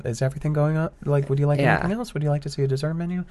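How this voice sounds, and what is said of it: Placating higher tenor server voice. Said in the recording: “that placating kind of tenor that I use as a server”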